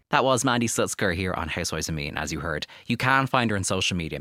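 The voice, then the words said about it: Irish accent. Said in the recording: “especially in your accent. It's so fun. ... the Irish accent”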